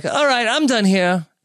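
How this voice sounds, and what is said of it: Impression of King Joffrey. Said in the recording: “That was a really good impression. ... Do you do a secret great King Joffrey impression?”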